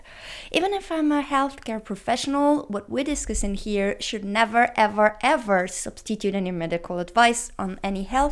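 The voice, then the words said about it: Non-native English accent. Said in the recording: “English is not my native language, so please excuse my accent that goes British when I'm nervous”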